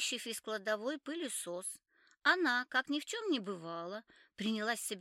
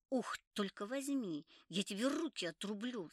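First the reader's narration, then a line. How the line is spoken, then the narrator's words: Through gritted teeth. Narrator (Russian): сказала сквозь зубы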